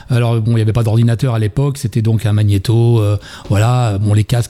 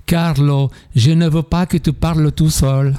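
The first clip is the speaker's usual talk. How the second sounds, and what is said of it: Imitated Italian accent. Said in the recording (French): “Avec l'accent italien.”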